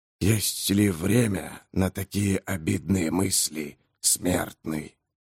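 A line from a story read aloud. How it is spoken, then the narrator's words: Soft yet hoarse. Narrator (Russian): Голос звучал мягко, хотя в нем присутствовал и хрип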